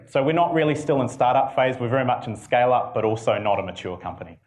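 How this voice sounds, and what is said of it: New Zealand accent. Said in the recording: “my funny accent ... we're based in Auckland, New Zealand”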